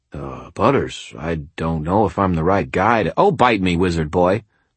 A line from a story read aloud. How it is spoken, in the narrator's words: Butters said, his tone annoyed